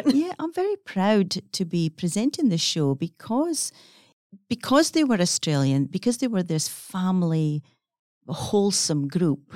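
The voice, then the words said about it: Scottish accent. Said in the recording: “I'm an Australian with a Scottish accent.”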